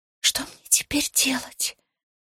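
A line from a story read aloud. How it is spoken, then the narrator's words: Whispered question. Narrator (Russian): шепотом спросила я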